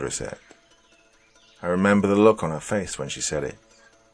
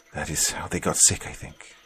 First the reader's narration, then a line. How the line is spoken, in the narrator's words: Florencio said quietly